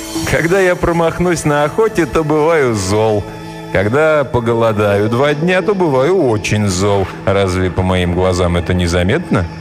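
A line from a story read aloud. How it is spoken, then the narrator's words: Laughing reply. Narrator (Russian): тот ответил ей, засмеявшись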